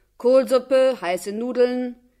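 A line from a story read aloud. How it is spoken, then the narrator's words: Calling out repeatedly. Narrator (German): Die Mutter rief ein paar Mal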